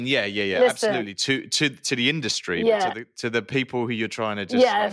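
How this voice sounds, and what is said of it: Non-American accent. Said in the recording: “your accent is currency out here”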